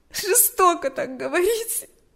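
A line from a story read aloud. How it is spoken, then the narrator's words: Sobbing reply. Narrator (Russian): ответила Галя, всхлипывая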